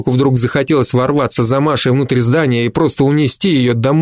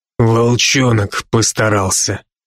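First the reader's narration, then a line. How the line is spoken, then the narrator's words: Through clenched teeth. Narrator (Russian): процедил Брок сквозь стиснутые зубы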